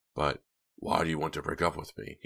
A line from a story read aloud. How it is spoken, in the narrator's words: he insisted, his voice shaking as he started to lose control